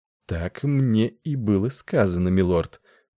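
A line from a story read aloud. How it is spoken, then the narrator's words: Purring. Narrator (Russian): промурлыкала она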